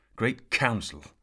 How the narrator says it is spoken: Sir Ector spat into the fire

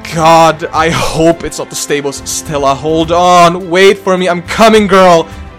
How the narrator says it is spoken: I shouted, pedaling so hard like I was in Tour de France

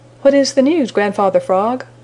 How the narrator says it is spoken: cried the Merry Little Breezes

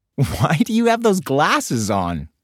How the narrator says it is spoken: Bibi giggled

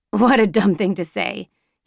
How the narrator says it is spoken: scolds me with a chuckle

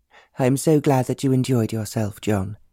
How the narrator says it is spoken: she answered

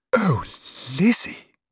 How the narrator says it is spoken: breathed

